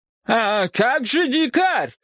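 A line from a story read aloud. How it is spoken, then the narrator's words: Exclamation. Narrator (Russian): воскликнул Ван Брок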